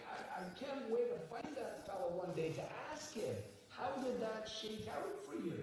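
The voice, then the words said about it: Scottish accent. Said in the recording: “I just can't do the Scottish accent ... Maybe I will be doing my Scottish accent.”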